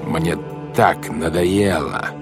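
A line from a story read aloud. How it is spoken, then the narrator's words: Growl. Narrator (Russian): зарычал он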